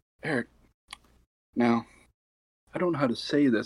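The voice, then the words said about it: Small quoted woman's voice. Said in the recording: “in her little voice.”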